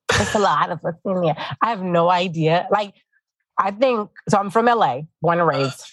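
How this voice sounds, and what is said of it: New York, Puerto Rican-sounding accent. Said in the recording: “it's giving like New York. It's giving like Boricua. ... what is this accent of yours?”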